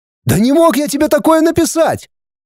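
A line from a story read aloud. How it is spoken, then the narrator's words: Shouting. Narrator (Russian): крикнул Денис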